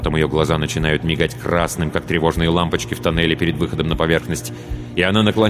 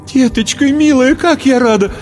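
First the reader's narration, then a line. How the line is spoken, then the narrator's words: Tearful joyful exclamation. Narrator (Russian): Воскликнула, всхлипнула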